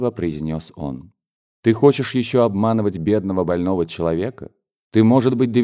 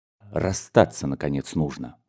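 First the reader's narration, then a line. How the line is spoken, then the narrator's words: Brief and quiet. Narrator (Russian): кончил коротко и тихо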